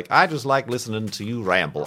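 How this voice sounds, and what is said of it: Put-on accent for quoted speech. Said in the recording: “I don't know why I gave you this accent. I've been watching too many people play Red Dead Redemption 2”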